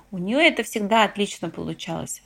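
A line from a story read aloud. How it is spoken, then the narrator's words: Under one's breath. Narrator (Russian): добавила я вполголоса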